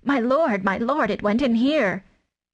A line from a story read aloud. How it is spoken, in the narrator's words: Tabaki behind him was squeaking